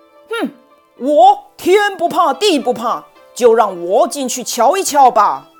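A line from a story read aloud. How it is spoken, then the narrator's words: Loud, confident. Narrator (Chinese): 石猴 大声看，自信满满地说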